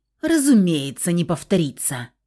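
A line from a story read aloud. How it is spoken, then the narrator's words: Snorting. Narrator (Russian): фыркнул блондин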